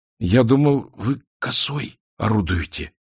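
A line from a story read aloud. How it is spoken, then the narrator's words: Whispered. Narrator (Russian): прошептал Мор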